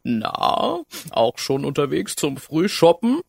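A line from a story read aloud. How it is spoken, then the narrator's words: Giggling. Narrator (German): Die Waldfee kicherte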